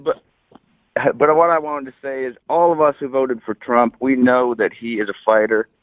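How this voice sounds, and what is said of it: Sick, cold-affected voice. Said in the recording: “I apologize for my voice, but I got a wicked cold here.”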